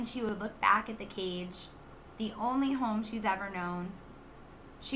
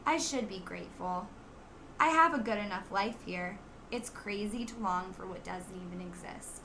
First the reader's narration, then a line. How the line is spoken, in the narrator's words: She'd sigh and say